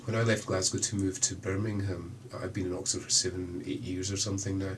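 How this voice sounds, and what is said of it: Scottish accent. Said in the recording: “clearly by accent I'm Scottish”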